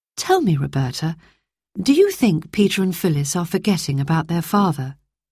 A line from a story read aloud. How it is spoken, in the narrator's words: she asked